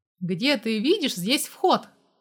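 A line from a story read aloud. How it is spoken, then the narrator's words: Barked question. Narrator (Russian): рявкнул я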